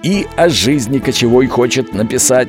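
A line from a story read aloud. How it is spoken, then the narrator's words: Laughing. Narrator (Russian): Дядя Михайло рассмеялся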